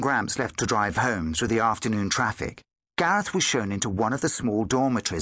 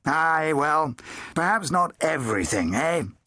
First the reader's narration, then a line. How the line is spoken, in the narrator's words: he chuckled